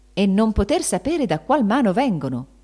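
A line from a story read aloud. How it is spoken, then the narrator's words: Exclaiming. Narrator (Italian): esclamava Benedetto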